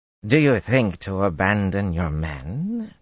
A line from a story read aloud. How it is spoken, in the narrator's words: Jadranka snarled